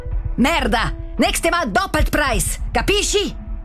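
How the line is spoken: Very loud shouting. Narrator (German): Er schreit jetzt so laut, dass man ihn auch draussen hört

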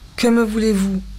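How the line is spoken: Curt deep chest voice. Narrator (French): demanda-t-elle sèchement d'une voix de poitrine qu'elle ne se connaissait pas

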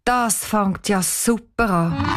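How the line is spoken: Sighing inner thought. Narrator (German): Cheyenne seufzt und denkt nur

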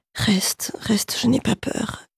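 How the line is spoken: Halting, jerky voice. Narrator (French): dit-elle d'une voix saccadée

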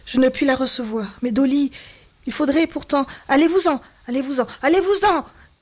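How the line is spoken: Anguished cry. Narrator (French): cria-t-elle sans le regarder, comme si ce cri lui était arraché par une douleur physique

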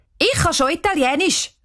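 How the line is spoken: Called out. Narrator (German): ruft Cheyenne

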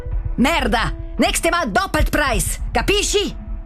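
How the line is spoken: Very loud shouting. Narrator (German): Er schreit jetzt so laut, dass man ihn auch draussen hört

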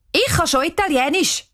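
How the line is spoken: Calling out. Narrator (German): ruft Cheyenne

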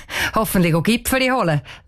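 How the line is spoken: Laughing. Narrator (German): lacht der Vater von der Cheyenne

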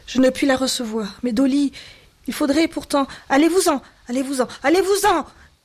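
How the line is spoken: Anguished cry of pain. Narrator (French): cria-t-elle comme si ce cri lui était arraché par une douleur physique

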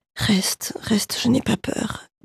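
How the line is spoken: Halting, jerky voice. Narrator (French): dit-elle d'une voix saccadée

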